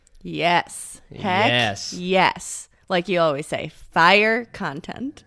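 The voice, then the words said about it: Strong regional accent. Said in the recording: “That was really bad. ... My accent really came out when we said fire.”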